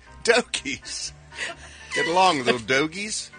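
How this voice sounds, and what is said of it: Philly accent. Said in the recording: “Why do you say it with a Philly accent? ... He says it like he says hoagies.”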